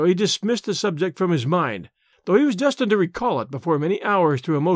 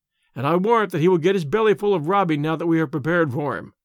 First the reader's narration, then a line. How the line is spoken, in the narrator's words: laughed Tarzan